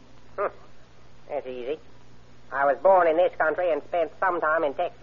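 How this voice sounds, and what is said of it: Southern drawl. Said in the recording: “southern drawl”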